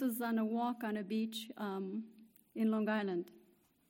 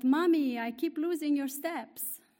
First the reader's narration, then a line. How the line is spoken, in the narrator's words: Alisa, who shouted